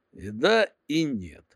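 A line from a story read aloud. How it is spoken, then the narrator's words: Irritated rasp. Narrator (Russian): раздраженно прохрипел я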